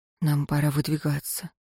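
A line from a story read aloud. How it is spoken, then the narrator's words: Said quietly. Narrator (Russian): тихо сказал он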